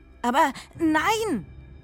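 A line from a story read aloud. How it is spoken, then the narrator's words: Surprised exclamation. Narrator (German): rief Mü überrascht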